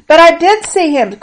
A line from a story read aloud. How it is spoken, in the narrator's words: cried Mary